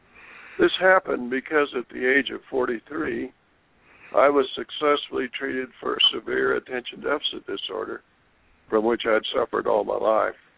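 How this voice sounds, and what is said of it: Voice affected by a cold. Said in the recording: “excuse my voice, I'm recovering from somewhat of a cold.”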